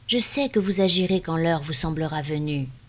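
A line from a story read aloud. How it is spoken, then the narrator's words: Plain. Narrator (French): dit l'ancien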